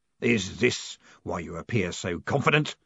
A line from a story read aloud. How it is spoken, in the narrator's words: snarled Guilt